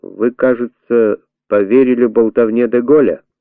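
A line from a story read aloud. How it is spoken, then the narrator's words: Dry plain statement. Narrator (Russian): Но Пикар, сухо поздоровавшись, сказал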